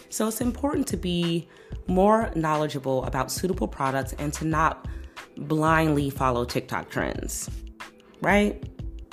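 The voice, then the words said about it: Hoarse voice. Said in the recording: “my hoarseness.”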